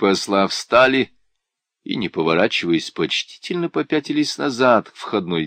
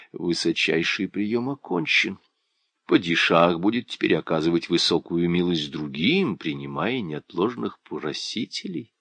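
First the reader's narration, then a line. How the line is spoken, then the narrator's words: Quiet. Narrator (Russian): визирь тихо сказал старшему послу Махмуд Ялвачу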